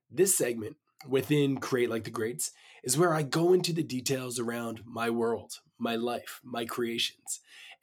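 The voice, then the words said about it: Slightly raspy voice. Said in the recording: “my voice might be a little bit raspy today... I'm coming down with a little bit of a cold”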